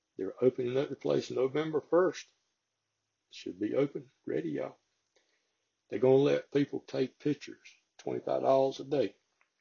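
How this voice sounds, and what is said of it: Strong Southern American accent. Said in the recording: “I have a very southern slang accent”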